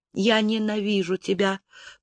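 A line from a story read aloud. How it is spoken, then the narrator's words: Whisper. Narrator (Russian): прошептала Зарит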